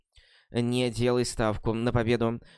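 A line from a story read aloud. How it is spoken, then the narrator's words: Father, through gritted teeth. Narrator (Russian): сказал папа сквозь зубы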